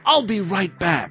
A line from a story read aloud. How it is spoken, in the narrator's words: Steve whispered in Gary's ear